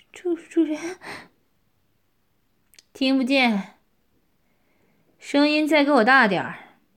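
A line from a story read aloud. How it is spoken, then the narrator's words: Sharp shout. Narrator (Chinese): 我喝道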